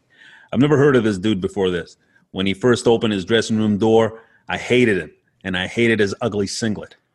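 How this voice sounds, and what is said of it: Put-on American accent. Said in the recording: “I'm going to do an American accent because this guy's probably American, right?”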